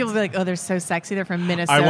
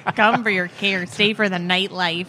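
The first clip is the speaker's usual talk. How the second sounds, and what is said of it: Put-on Minnesota accent. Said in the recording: “Minnesota accent ... Do my Minnesota accent ... in the Minnesota accent?”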